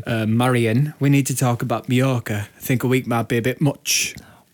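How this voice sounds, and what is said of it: Put-on Yorkshire accent. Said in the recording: “Doing a Yorkshire accent... Can you do a Yorkshire accent?”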